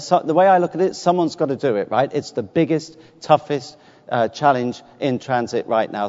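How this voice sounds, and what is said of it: British accent. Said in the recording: “the guy with the funny accent ... a limey”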